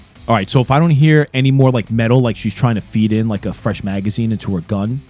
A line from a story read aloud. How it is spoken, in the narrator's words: Bannon shouts out